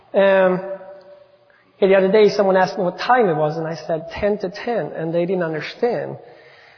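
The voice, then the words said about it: Swedish accent. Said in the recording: “bear with a Swedish accent for a little bit. I can unfortunately not change to any other accent.”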